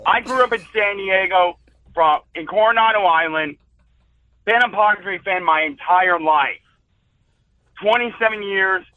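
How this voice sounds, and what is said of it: Hoarse, worn-out voice. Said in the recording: “My voice is still shot.”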